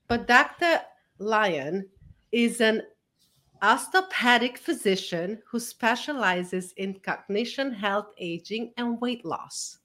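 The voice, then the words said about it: Speaks with a foreign accent. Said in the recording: “I know I have an accent ... it's my accent”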